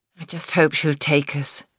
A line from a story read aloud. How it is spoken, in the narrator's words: murmured